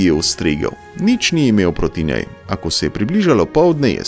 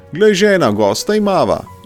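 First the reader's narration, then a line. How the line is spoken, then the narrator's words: Joyful man calling out. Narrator (Slovenian): je zaklical mož s praga ves vesel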